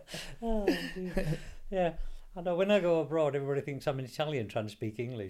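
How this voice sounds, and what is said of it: Slight South Yorkshire accent. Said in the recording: “in a slightly Yorkshire ... In a slightly accent. South Yorkshire accent.”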